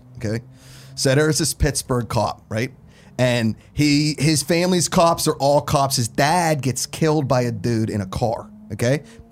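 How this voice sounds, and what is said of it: Put-on Pittsburgh accent. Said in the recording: “I'll do it in a Pittsburgh accent because nobody thinks that a Pittsburgh accent is real ... It sounds like a Chicago accent.”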